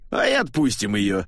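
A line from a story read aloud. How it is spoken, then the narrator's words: After laughter, cardinal. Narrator (Russian): отсмеявшись, сказал, наконец, кардинал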